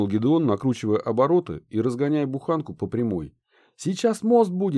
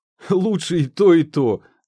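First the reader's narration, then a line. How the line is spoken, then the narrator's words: Laughing. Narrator (Russian): засмеялся Гедеон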